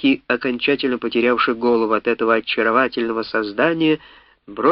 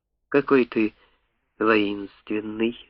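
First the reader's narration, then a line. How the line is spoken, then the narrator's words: Shy whisper. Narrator (Russian): застенчиво прошептала дракон Комода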